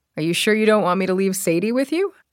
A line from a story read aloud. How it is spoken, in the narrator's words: He laughed